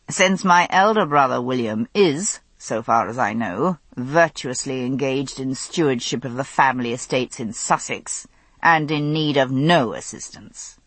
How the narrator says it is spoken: he said dryly

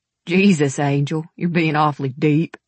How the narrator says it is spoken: he laughed

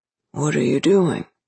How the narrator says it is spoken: he slurred

